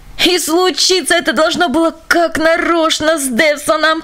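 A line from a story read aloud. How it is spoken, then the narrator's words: Groaning. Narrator (Russian): простонал господин Ренсон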